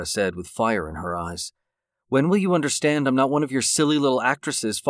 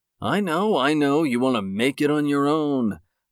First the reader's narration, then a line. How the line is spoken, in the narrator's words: David said, mocking her